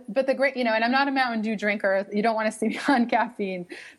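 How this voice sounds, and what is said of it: Boston accent. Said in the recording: “Boston, Massachusetts. so maybe you can pick up on my wicked accent a little bit here”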